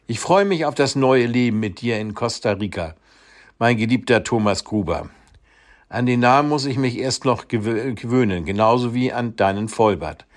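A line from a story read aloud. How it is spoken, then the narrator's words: Laughing. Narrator (German): lachte Tatjana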